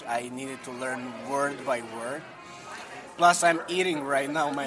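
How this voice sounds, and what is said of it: Non-native English accent. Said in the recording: “maybe I sound weird for all listeners. English is my second language ... your accent is absolutely sexy”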